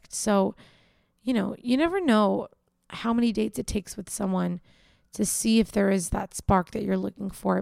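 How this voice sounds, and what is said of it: Tired-sounding voice. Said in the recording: “You can probably tell in my voice, I'm super tired.”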